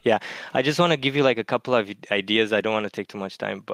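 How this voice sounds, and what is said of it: Eastern European accent. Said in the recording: “if you can tell from my accent, I'm from Eastern Europe”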